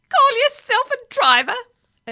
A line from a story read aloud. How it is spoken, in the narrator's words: it screeched at Billy Caster